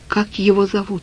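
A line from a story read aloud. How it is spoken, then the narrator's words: Quiet question. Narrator (Russian): спросил я Олю негромко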